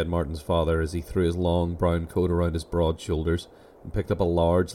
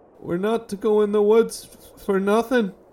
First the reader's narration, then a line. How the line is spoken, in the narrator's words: he whimpered, trying to blink the tears out of his eyes